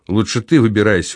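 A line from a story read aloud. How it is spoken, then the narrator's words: Dejected, sinking voice. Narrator (Russian): упавшим голосом произнес Савва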